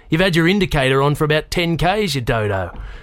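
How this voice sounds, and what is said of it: Rural farmer's accent, serious tone. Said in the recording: “the officer said seriously in his farmer's accent”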